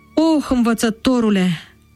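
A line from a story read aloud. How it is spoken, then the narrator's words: Sighed. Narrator (Romanian): a suspinat el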